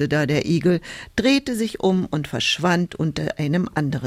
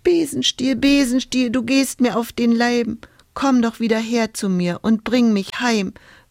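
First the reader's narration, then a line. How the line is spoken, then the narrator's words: Whimpering. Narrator (German): wimmerte Hulda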